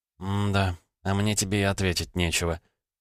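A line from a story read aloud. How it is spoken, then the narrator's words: Sad, smiling. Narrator (Russian): грустно улыбнулась Ольга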